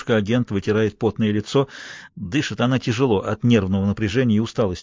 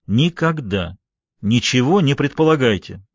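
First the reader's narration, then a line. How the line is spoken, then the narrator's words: Loud. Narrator (Russian): громко говорит Руди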